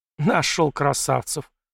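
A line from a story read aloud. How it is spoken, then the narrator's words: Scornful snort. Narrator (Russian): фыркнула Зимина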